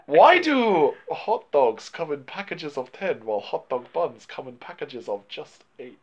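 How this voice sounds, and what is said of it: Imitation of Chow Yun-Fat's accent. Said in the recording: “Why are you doing racist accents? ... That's how Chow Yun-Fat says it.”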